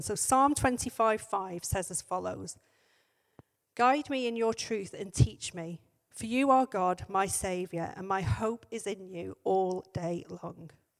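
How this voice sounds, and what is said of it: Strained voice, about to give out. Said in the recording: “my voice is just about to go”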